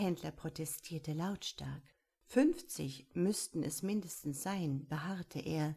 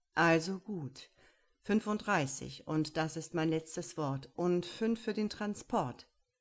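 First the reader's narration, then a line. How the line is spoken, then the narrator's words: Firm, final. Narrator (German): sagte mit fester Stimme, die keinen Widerspruch mehr duldete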